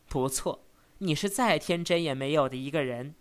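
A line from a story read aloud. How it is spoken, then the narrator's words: Foolish laugh. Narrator (Chinese): 柳元痴的笑道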